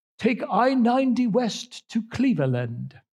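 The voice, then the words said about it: Imitated British sat-nav voice. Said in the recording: “she has a British accent”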